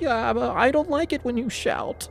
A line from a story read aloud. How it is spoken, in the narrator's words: she whined, her lips trembling